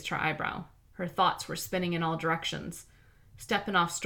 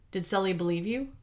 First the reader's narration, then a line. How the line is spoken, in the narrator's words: Lara asked